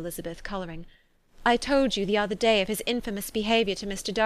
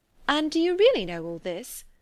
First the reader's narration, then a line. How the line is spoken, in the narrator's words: cried Mrs